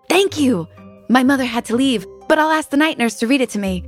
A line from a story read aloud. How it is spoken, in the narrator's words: he said happily